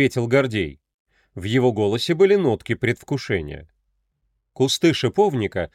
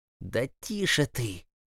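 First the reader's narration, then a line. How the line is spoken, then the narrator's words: Hissed. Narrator (Russian): шипел Артем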